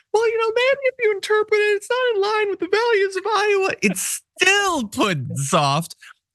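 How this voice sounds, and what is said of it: Mickey Mouse-style cartoon voice. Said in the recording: “your impression of Ron DeSantis is Mickey Mouse”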